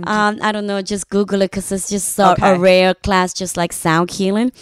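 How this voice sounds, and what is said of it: Non-native English accent. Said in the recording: “I'm sorry for my accent. ... No, I love the accent.”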